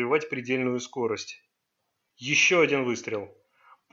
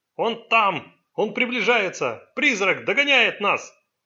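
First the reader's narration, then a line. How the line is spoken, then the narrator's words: Shouting. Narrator (Russian): Джон Сун крикнул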